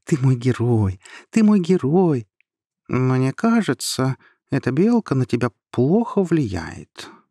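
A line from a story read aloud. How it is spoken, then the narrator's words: Pleased purr. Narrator (Russian): мурлыкнул довольный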